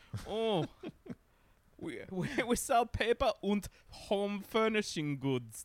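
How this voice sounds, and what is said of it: Put-on German accent. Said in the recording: “I'm doing a German accent. I'm all over the place tonight.”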